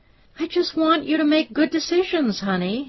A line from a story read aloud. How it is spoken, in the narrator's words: Hillary pleaded